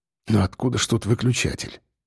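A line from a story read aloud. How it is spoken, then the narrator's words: Muttered. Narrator (Russian): пробормотал он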